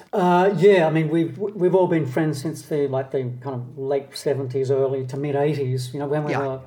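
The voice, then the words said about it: Australian accent. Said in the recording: “you sound like authentic Aussies to me ... certainly we all sound Australian to my ears”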